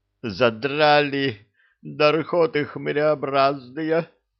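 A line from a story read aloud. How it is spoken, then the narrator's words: Weary groan. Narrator (Russian): Устало простонал Энет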